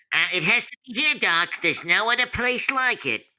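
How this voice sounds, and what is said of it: Bugs Bunny cartoon voice. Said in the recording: “I couldn't voice Bugs Bunny ... Mel Blanc would be very, very proud.”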